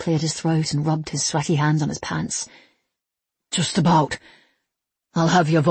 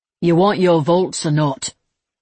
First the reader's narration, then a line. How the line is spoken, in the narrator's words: Levi asked, working up the courage to keep his voice strong